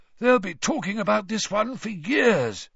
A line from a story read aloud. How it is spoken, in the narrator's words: he said hoarsely